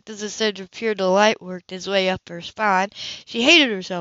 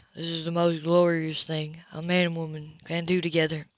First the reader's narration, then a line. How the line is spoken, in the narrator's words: murmured